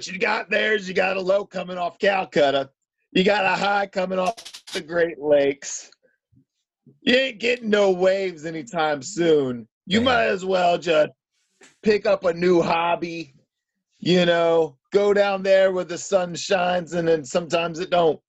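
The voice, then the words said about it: Imitates another person's voice. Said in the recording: “Diesel is ... loosely based Hulk Hogan impersonation.”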